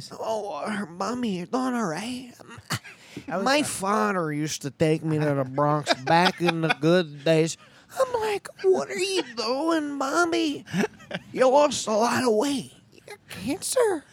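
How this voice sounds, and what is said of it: Sebastian impression, not very good. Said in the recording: “was doing a Sebastian voice ... Your Sebastian voice? ... When you do it on your own, you're not good.”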